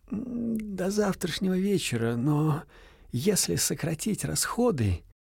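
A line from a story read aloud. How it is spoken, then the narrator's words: Muffled, after clearing throat. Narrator (Russian): Брат Гратин, щуплый парижанин, потемнев лицом, глухо произнес, прокашлявшись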